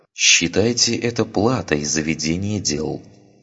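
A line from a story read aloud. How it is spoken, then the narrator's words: Calm. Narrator (Russian): сказала Ария, спокойно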